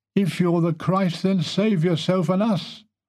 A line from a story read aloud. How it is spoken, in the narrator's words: One of the two men crucified with him joined in the chorus of complaint and cried